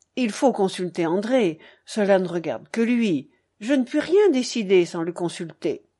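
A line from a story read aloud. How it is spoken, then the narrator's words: Curt. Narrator (French): elle dit d'un ton bref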